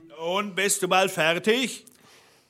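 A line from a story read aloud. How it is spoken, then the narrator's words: Calling from below. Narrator (German): rief der Blaubart unten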